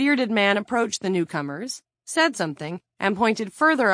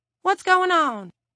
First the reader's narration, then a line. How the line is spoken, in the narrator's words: asked in a distracted voice